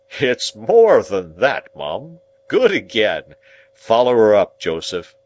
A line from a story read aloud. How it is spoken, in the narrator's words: Pumblechook, nodded again, and said with a patronizing laugh